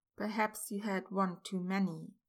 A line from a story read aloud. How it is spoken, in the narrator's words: Remus said, keeping his tone even